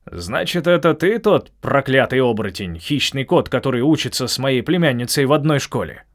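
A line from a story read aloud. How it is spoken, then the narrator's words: Booming voice of a stag. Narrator (Russian): прогремел олень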